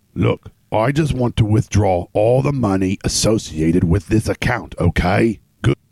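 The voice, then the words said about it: Impression of the Assyrium character. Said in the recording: “You're too good at that. ... Impersonations,”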